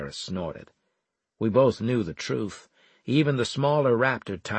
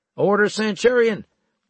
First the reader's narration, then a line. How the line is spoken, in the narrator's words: Leeson called out